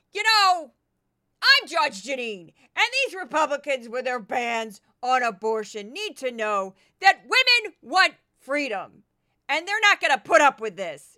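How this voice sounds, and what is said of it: Imitates another person's voice. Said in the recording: “do a quick Judge Jeanine impression.”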